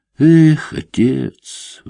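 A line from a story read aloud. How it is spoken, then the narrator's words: Sighed. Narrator (Russian): вздохнул Гриневский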